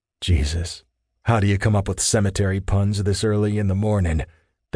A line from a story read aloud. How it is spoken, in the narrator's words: Thane grumbled